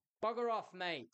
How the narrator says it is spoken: I shouted

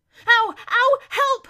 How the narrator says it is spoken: he shouted suddenly, for at that very moment he felt something touch his leg

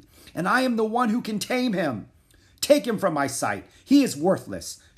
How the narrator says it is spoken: shouted the king

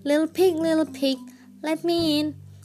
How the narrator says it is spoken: shouted the wolf

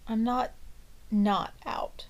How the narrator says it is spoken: Hecate mumbles

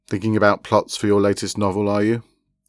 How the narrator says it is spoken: He asked, with a chuckle

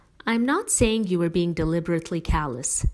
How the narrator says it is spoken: she continued, still in the same patient tone

